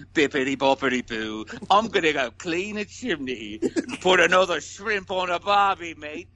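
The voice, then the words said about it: Exaggerated put-on British accent. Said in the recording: “That was me trying my hardest to do a British accent. ... It was amazing.”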